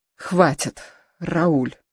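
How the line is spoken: Pleading. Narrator (Russian): Хелена взмолилась

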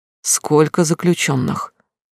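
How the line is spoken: Quiet. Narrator (Russian): тихо спросил Стас

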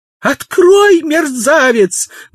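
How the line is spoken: Screaming. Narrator (Russian): вопила она

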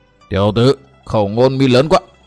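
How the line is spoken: Menacing growl. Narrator (Vietnamese): Hỏa Vân quái Phật gằn giọng nói

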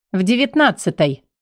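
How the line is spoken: Indignant snort. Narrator (Russian): фыркнула, будто я в долг у нее 1100 попросила

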